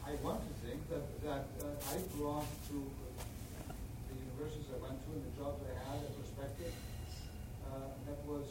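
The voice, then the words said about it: Slight Greek accent, mostly American-sounding. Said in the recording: “you probably can tell from my accent, it's not that Greek, I suppose, it's more American”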